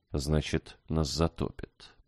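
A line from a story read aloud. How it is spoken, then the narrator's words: Mumbling. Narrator (Russian): пробормотал Иван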